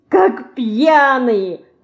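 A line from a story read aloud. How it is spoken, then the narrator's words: Laughing. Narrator (Russian): засмеялась Динка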